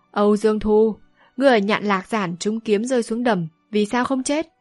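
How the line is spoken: Loud laughing. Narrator (Vietnamese): Thiết Bốc Thần Y cười to

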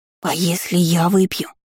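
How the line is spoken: Whispered. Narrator (Russian): прошептала

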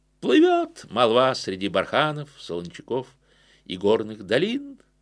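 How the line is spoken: Laughing woman rider. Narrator (Russian): Снова засмеялась прекрасная всадница

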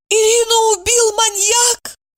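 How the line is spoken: Sobbing. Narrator (Russian): Сказала она и, зарыдав

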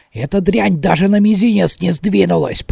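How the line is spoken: Growl. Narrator (Russian): прорычал

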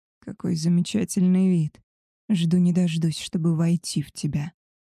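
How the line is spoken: Hoarse rasp. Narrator (Russian): прохрипел он

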